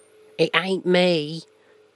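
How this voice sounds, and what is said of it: Put-on Cockney accent. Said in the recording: “Does that sound pretty good in a Cockney accent?”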